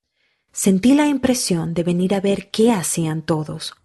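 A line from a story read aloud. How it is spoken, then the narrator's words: Plain. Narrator (Spanish): respondió él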